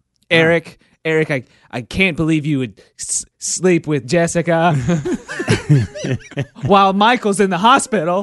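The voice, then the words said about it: Melodramatic soap opera actor voice. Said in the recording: “my soap opera impersonation”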